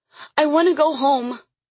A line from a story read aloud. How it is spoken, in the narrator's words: she cried, a sob bursting from her throat